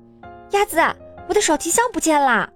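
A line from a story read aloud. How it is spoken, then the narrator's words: Sudden shout. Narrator (Chinese): 多兹忽然喊道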